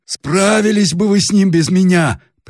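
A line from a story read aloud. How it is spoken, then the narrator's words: Hoarse, ugly bass voice. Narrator (Russian): прервало хриплый отвратительный бас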